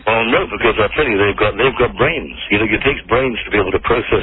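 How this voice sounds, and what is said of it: Mysterious-sounding accent. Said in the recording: “Why is your accent so mysterious?”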